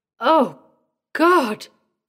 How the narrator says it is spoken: cried Jack, shuddering

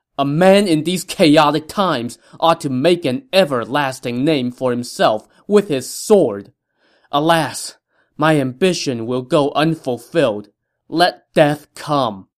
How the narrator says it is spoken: Taishici shouted out loud

